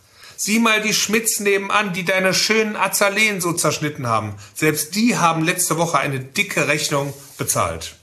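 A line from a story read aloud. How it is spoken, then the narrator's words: Almost pleading call. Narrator (German): Beinahe flehend rief er in das dunkle Schlafzimmer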